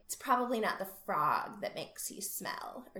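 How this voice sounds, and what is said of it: Imitates a character's voice. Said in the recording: “pretty good Libby impression”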